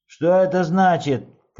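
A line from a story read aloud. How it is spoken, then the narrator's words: Shout. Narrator (Russian): крикнул Джо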